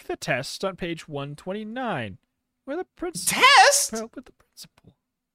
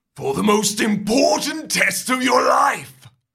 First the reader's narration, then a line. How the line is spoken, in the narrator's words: booms